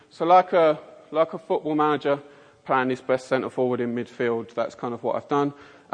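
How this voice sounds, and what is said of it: Mockney (London) English accent. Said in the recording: “my appalling Mockney accent ... pronounced the word faith as faith”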